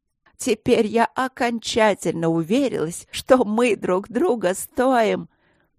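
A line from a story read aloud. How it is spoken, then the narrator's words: Nervous laugh. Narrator (Russian): нервно засмеялась она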